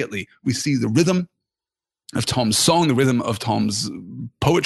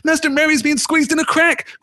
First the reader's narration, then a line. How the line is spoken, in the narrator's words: cried Sam